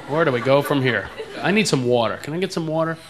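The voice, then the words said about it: East Coast American accent. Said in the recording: “I'm from back east. That's why I talk like that ... people make fun of my accent all the time”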